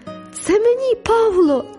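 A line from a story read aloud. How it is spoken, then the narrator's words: Joyful shout. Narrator (Ukrainian): радісно закричала я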